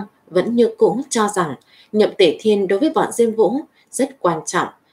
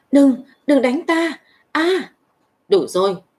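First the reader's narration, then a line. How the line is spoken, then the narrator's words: Terrified pleading. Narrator (Vietnamese): Nhậm Tể Thiên trong mắt lộ ra sợ hãi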